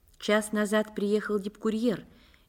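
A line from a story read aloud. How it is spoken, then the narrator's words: Quiet report. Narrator (Russian): негромко сообщила Скрипник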